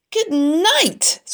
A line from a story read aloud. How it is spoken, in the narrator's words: screamed Avery